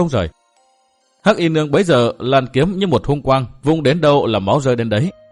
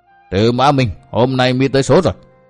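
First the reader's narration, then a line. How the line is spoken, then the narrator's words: Cackling, furious. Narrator (Vietnamese): Sơn đầu hắc quái cười hí hí, nói với giọng kinh giận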